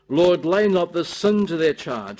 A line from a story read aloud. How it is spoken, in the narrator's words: cried with a loud voice